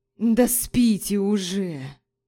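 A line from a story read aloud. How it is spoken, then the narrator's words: Groaning man's drawl. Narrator (Russian): Со стоном протянул мужчина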